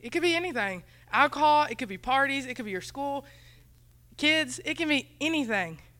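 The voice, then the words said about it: Country accent. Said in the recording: “My accent is horrible, sorry. It's country and it's just bad English.”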